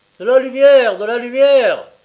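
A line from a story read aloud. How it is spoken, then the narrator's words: Shouted. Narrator (French): cria quelqu'un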